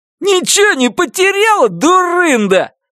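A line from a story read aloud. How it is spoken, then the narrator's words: Shout then laughter. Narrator (Russian): крикнул он и рассмеялся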